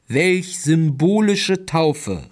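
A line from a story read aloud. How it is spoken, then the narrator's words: Called out. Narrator (German): rief der Propagokuk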